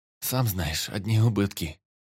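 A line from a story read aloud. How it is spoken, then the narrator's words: Sighing. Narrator (Russian): вздохнул Шинкари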